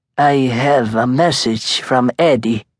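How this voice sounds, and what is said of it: Thick Italian accent. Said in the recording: “in a thick Italian accent”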